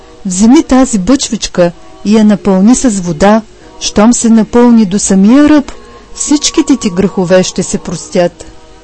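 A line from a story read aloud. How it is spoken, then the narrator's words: Old man, calm. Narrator (Bulgarian): Старецът спокойно му отвърнал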